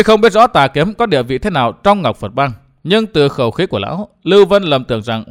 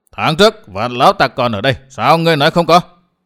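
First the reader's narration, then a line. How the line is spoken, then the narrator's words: Dark angry shout. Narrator (Vietnamese): Sắc mặt xa sầm, Tà Kiếm quát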